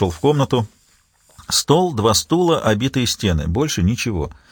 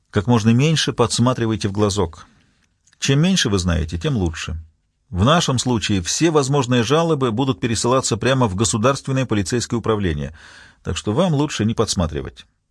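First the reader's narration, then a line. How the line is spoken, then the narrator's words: Calm reply. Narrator (Russian): Нурландер спокойно ответил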